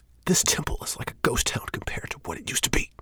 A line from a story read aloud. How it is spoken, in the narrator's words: Shane says in a raised whisper